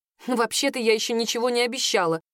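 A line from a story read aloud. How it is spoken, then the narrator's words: Snort. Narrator (Russian): фыркнула я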